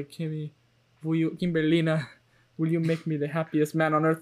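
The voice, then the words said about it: Put-on accent, done badly. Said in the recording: “This accent is going horribly.”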